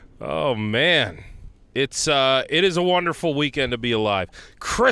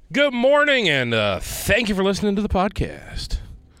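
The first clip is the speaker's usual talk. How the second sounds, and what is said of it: Polished radio announcer voice. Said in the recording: “still got a little radio voice in me”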